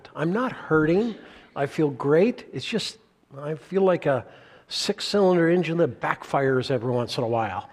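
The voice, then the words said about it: Rough, strained voice. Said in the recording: “My voice is not good this morning. Hasn't been good for a couple of weeks.”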